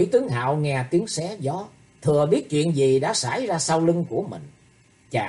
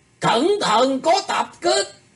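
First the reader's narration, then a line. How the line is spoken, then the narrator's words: Sudden urgent shout. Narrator (Vietnamese): hốt nhiên Ngải Chí Thái la lên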